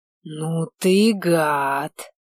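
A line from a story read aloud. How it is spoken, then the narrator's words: Hissing. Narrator (Russian): прошипел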